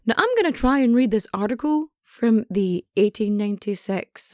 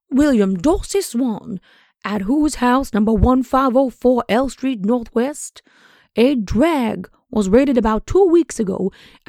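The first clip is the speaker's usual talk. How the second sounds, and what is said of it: Foghorn Leghorn impression. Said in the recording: “going to do the foghorn leghorn voice, so prepare to suffer”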